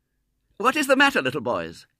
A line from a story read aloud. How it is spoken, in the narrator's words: she said sharply